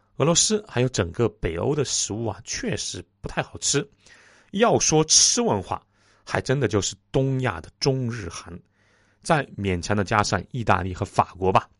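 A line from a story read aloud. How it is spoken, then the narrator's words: Laughing. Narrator (Chinese): 我笑着说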